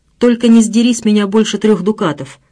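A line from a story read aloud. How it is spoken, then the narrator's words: Tossed off, loud laughter. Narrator (Russian): бросил он на ходу и громко захохотал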